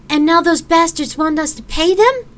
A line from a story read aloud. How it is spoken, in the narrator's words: Gabriel snapped back